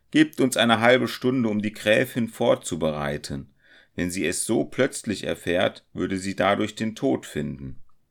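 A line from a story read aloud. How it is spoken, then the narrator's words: Loud call. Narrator (German): Zu den Räubern rief er mit lauter Stimme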